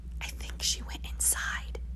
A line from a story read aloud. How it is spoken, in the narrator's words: whispered